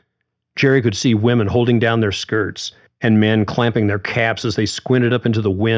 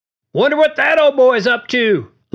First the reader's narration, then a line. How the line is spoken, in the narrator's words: Larry yelled